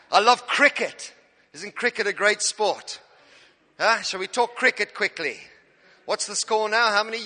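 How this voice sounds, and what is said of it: South African accent. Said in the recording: “As you can tell by my accent, I'm not British. I'm an African. I'm from South Africa, Cape Town.”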